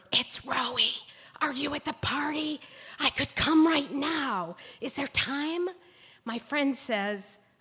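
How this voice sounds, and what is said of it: Whispering. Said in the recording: “whisper”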